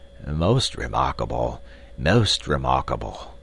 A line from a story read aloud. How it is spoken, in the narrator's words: muttering to himself